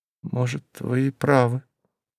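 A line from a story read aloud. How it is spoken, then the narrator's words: Quiet. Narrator (Russian): тихо сказала Андреева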